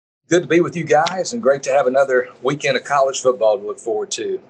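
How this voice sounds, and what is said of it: Southern Texas twang. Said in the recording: “with that Southern Texas twang”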